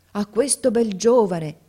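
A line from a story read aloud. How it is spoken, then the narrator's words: Ladies exclaiming together. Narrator (Italian): esclamarono le dame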